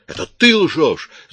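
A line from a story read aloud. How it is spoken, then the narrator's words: Shout. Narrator (Russian): закричала Кара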